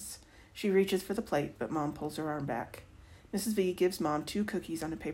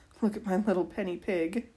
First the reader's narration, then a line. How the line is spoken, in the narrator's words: Mom says, laughing